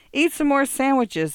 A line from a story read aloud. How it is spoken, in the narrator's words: a woman shrieked